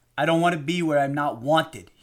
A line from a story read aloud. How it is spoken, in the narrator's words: he barked